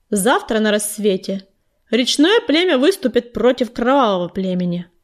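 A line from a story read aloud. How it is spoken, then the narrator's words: Loud proclamation. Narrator (Russian): громко провозгласила пятнистая звезда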